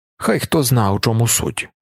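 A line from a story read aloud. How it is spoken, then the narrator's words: Grumbling. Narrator (Ukrainian): буркнув Тефт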